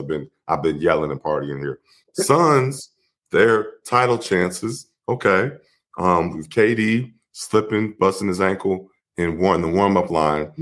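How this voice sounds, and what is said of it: Slightly hoarse voice. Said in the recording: “my voice is a little hoarse.”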